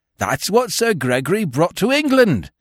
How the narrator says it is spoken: ran on almost hysterically

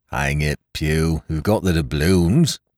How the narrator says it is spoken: grumbled one

